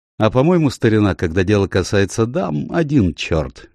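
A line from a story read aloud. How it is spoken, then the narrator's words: Cheerful remark. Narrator (Russian): весело заметил доктор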